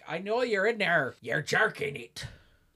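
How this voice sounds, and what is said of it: Willem Dafoe impression. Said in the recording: “my Willem Dafoe impression”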